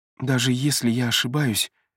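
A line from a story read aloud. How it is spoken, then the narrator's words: Soft. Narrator (Russian): мягко произносит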